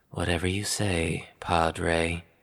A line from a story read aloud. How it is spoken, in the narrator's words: Ezra, of course, didn't want to give his father the satisfaction, and so he merely muttered